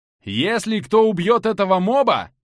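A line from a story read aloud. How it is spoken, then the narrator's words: Shouted warning. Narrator (Russian): прокричал я в воздух, предупреждая игроков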